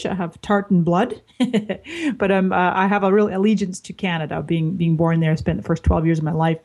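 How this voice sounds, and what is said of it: Scottish-Canadian accent. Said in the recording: “as soon as I start talking, people realize I have an accent, depending on what part of the world they're listening from. And I am actually a Scottish and Canadian and a Californian”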